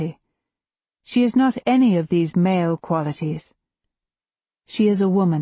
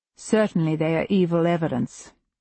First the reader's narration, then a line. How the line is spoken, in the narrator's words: Edward says grimly